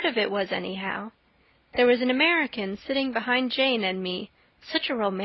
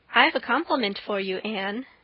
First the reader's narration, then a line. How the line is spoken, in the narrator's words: said Diana